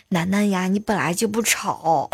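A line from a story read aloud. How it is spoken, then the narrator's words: Gentle. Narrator (Chinese): 男男孩子呢，就是很温柔的就就跟他讲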